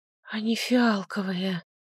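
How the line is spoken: Whispered. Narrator (Russian): прошептала она

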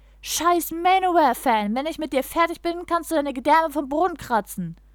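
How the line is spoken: Shouting. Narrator (German): Er schrie

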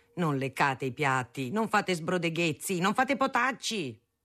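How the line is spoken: Shouted. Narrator (Italian): gridava

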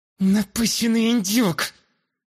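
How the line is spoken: Cursing through gritted teeth. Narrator (Russian): Ругнулась сквозь зубы Астра

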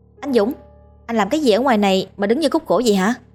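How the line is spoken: Loud question. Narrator (Vietnamese): lớn tiếng hỏi

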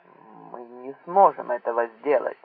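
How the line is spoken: Grumbling. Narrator (Russian): пробурчал Энглихарт

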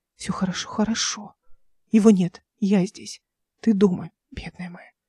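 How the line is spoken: Whisper. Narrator (Russian): шептал он

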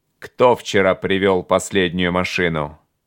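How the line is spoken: Sharp bark like gunshot. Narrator (Russian): Рявкнул он, как выстрелил

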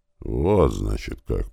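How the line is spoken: Muttered. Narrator (Russian): пробормотала

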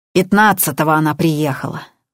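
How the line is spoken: Angry. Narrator (Russian): зло сказала Надежда

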